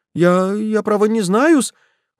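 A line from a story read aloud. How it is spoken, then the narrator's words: Confused babbling. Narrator (Russian): растерянно залепетал он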